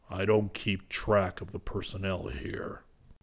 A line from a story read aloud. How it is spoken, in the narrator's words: he grumbled